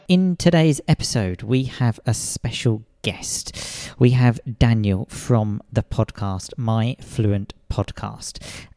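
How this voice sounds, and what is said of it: Ridiculous-sounding voice. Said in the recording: “speaking in a ridiculous voice”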